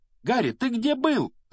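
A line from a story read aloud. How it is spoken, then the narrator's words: Shrieked, two voices. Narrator (Russian): завизжала Гермиона вместе с Роном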